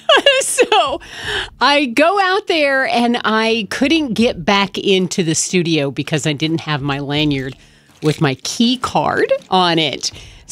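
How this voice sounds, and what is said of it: Out of breath. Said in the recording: “I'm a little out of breath”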